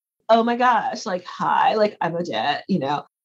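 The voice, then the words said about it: Valley Girl accent. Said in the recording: “that Val Girl accent that was popular back in the 90s”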